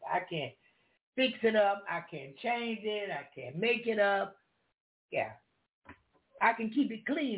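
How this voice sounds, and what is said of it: Deep Southern country accent. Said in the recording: “You're going to hear that Southern come out of me, that old country ... my African flat voice just come with that deep accent”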